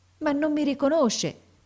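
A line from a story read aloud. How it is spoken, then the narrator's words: Boy's desolate exclamation. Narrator (Italian): esclamò il ragazzo in tono desolato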